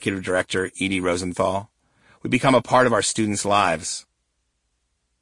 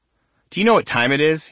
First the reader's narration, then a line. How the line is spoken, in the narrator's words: he snapped